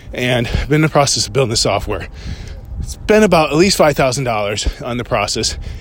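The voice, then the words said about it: Slightly out of breath. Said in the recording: “I'm a little out of breath. I just finished a little run.”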